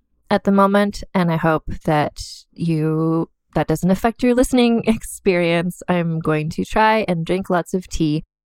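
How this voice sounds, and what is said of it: Slightly hoarse, froggy voice. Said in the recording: “I have a bit of a frog in my throat”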